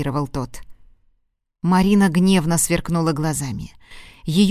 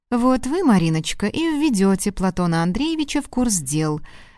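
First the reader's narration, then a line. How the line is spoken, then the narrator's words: Suspiciously sugary interjection. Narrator (Russian): вмешалась Изольда Борисовна подозрительно слащавым голосом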